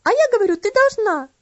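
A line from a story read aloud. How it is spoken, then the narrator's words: Shrieking. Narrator (Russian): завизжала Энна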